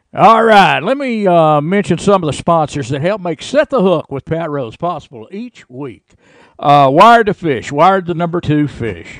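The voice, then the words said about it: Announcer-style radio voice. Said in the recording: “I tried my new radio voice”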